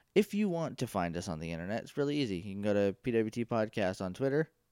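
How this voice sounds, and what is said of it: Rough, groggy just-woke-up voice. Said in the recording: “I just woke up from a nap, so that's why my voice sounds like 3 miles of bad road”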